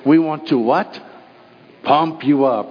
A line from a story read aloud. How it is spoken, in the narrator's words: they would always say with a German accent